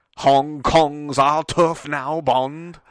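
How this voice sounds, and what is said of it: Daniel Craig impression, like British Morgan Freeman. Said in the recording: “that your Daniel Craig impression? ... It's better than I thought at first, but maybe not. I'm not sure. ... You sound like a British Morgan Freeman.”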